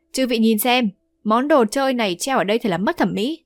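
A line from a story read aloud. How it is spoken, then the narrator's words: Hearty laughter. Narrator (Vietnamese): Vương Đại Niên ha hả cười to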